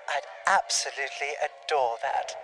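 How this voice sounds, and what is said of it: Put-on English accent. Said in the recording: “I got to do an English accent for this role”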